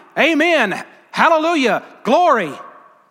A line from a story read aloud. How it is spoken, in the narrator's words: they started shouting